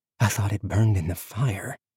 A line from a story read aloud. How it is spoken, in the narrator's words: she whispered